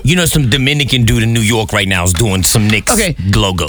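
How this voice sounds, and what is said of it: Put-on Dominican New Yorker accent. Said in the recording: “As soon as he said New York, he tried to put an accent on it. ... That's my Dominican New Yorker.”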